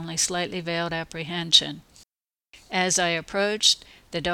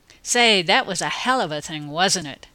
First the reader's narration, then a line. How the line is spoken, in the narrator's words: exclaimed